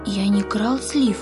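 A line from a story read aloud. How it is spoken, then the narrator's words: Timid objection. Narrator (Russian): робко возразил Яша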